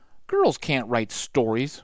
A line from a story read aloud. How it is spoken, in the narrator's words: grumbled Annie